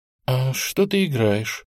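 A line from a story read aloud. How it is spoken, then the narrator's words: Timid question. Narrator (Russian): робко спросила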